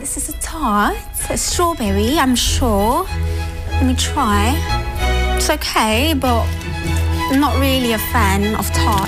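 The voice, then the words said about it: Very prominent British accent. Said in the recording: “that is a very prominent British accent, but maybe she's British, maybe she's not, maybe she's trying to bamboozle you guys”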